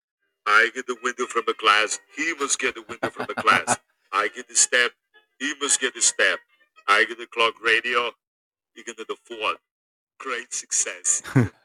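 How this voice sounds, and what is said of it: Arnold impression doing Borat lines. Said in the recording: “his Arnold impression ... he did the scene from Borat, but with Arnold ... It's so good.”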